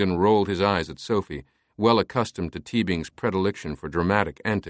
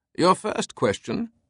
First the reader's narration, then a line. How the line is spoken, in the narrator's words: Teabing declared, his tone Herculean